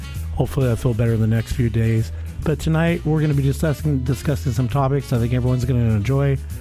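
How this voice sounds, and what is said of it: Sick, rough-sounding voice. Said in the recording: “You still know, sound terrible. ... I'm sorry about my voice. It's probably going to be shifting in and out”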